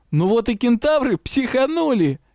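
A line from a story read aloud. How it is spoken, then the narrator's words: Laughing. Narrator (Russian): Юрау рассмеялся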